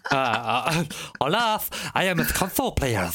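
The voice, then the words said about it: Mock Spanish accent. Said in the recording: “Oh, it's Spanish ... the accent's coming ... slightly on the racist side now”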